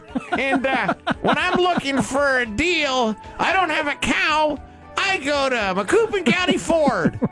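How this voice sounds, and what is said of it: Loose Bart Simpson voice impression. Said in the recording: “I cannot do Bart Simpson. My throat's just not right. Can't do him at all. ... all these clients wanted Bart Simpson voices ... I became like this in-demand guy to do Bart Simpson's voice. It sounded nothing like Bart Simpson.”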